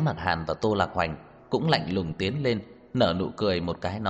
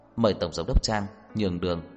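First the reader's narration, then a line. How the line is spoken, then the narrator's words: Cold and slow. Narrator (Vietnamese): Thẩm Quân Dụ lạnh lùng, chậm rãi nói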